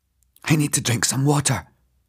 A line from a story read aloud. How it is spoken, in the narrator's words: I gasped